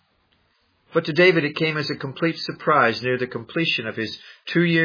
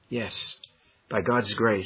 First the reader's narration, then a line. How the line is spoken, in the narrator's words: he murmured